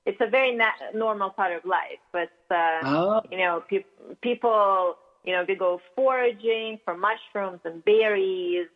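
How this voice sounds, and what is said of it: Russian accent. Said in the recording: “I grew up in Russia, as you can probably tell by my accent. I still haven't shaken it off fully.”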